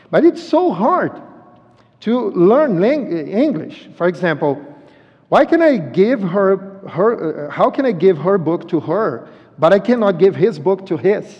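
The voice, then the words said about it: Strong non-native English accent. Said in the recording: “I, I, I have a strong accent, accent, but they can understand me.”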